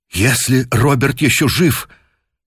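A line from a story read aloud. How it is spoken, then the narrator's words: Horrified exclamation. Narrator (Russian): воскликнул в ужасе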